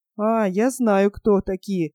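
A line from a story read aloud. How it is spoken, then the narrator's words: Through clenched teeth. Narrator (Russian): процедил хрящ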